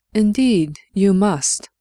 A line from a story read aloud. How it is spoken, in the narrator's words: she said, and was pleased that her voice did not waver